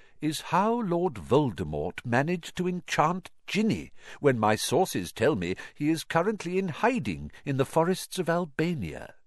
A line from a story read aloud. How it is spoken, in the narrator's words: said Dumbledore gently